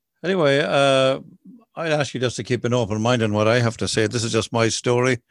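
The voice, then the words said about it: Unfamiliar non-local accent. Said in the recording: “a strange accent”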